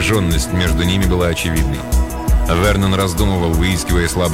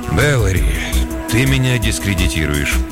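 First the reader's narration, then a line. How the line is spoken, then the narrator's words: Sigh. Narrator (Russian): он вздохнул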